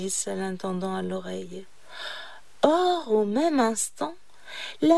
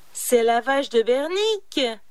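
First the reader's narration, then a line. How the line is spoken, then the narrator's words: Shouted. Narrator (French): cria l'intendant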